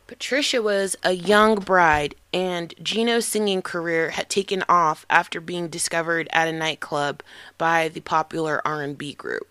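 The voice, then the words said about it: Slightly hoarse voice. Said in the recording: “my voice it's a little bit hoarse.”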